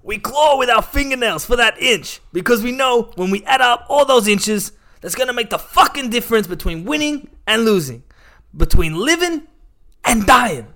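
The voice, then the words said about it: Imitates another person's voice. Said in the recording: “I'm going to do my best impression of Al Pacino ... That's pretty good. I'd say 8.5 ... I didn't know Al Pacino was here”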